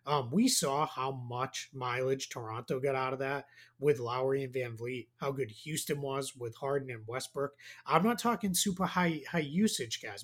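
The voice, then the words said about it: Strong Boston accent. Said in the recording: “My Boston accent came out there really bad.”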